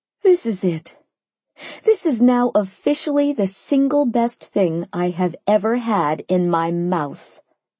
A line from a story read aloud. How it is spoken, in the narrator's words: I announced, moaning